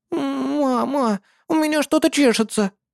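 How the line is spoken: Pleading whine. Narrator (Russian): хныкала последняя, с умоляющим лицом

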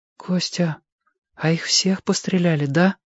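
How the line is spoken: Whispered question. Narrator (Russian): шепотом спросила Белка

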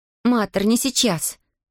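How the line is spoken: Snapping, girl. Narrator (Russian): огрызнулась девочка

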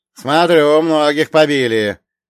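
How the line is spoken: Shouted again. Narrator (Russian): вновь крикнули нам

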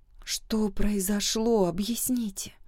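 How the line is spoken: Quiet request. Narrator (Russian): тихо попросила

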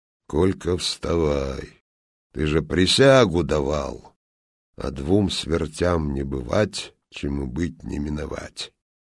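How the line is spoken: Calm. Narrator (Russian): он мне сверху спокойно так говорит

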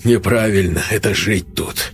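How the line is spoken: Smirking grunt. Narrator (Russian): хмыкнул Сергей

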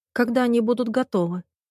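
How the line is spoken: Whisper. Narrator (Russian): прошептала

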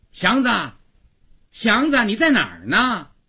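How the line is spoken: Loud calling, woman servant. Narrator (Chinese): 曹家的女仆高妈响亮地叫着

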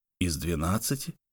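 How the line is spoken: Muttered repetition. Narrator (Russian): повторил Лук, забормотал

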